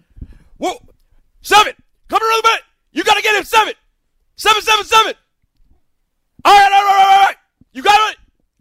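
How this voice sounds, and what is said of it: Shouting mic'd-up football player impression. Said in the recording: “I do a great impression of mic'd up”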